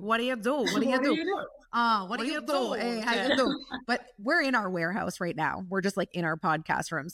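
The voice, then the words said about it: Italian accent. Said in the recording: “You have like an Italian accent.”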